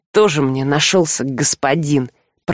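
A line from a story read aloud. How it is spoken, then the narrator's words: Grumbling. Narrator (Russian): проворчал вор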